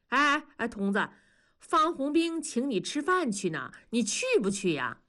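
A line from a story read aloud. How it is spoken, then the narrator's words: Loud clamoring. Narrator (Chinese): 大庄…提高声音嚷嚷着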